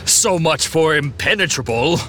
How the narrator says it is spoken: Hercules snarled

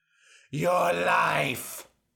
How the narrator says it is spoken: screamed

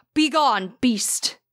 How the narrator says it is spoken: shouted with great fear

